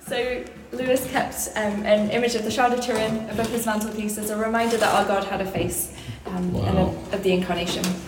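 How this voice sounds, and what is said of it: Thick British accent. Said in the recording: “thick British accent”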